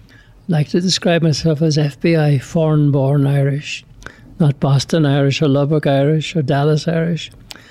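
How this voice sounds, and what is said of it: Irish accent. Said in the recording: “the listeners will probably gather from my accent that I'm from somewhere else. I'm from Ireland.”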